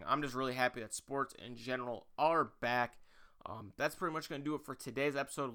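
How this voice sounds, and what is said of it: Slightly hoarse voice. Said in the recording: “My voice is a little bit hoarse today.”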